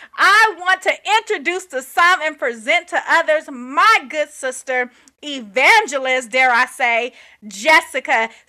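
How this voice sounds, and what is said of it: Preacher-style church voice. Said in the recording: “in my preacher voice, in my church voice,”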